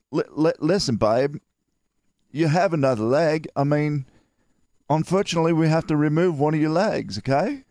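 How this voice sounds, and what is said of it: Put-on Australian accent. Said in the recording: “any news you got or any pepping up from an Australian accent is 10 times more fun”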